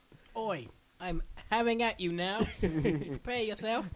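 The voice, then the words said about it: Thick put-on British accent. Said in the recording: “With a thick British accent.”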